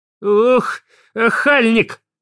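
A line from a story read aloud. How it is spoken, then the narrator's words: Shouting. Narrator (Russian): кричала Марья Петровна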